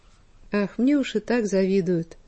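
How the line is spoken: Sighing. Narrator (Russian): вздохнула Сибирочка

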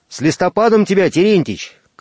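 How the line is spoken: Shouted from afar. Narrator (Russian): крикнул с мостика вахтенный

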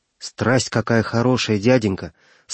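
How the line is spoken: Delighted boy exclaiming. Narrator (Russian): с восторгом воскликнул мальчик

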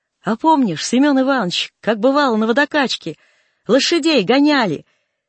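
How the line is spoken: Shouting into ear. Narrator (Russian): И сказал Николай Данилович, крикнул на ухо

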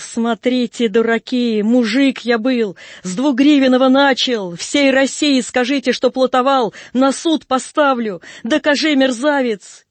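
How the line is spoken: Angry shouting. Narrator (Russian): С мужиками ругался, кричал

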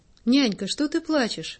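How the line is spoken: Surprised exclamation. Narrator (Russian): с удивлением воскликнул Сергунька

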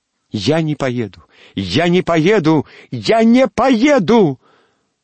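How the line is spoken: Sudden shouting. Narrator (Russian): Вдруг закричала Алевтина

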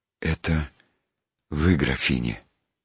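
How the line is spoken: Quiet, voice dropping with emotion. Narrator (Russian): тихо спросил он голосом, упавшим вдруг от неожиданного волнения

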